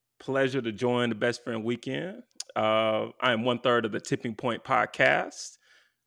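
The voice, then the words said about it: Smooth deep radio voice. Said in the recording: “that boy got a radio voice... He's voice daddy”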